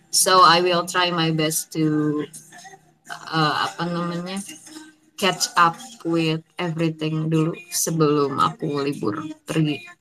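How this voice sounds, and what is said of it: Tired, worn-out voice. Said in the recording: “you could hear from my voice, suara aku enggak banget juga. Kayak, yeah, I'm tired.”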